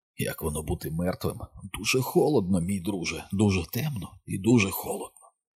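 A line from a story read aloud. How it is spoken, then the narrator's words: Whispered. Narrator (Ukrainian): Він прошепотів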